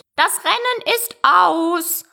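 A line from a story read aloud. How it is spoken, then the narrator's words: Sudden call, bird. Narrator (German): rief der Dodo plötzlich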